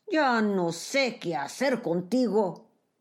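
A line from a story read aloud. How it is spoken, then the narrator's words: Exclaimed. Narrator (Spanish): El amo exclamó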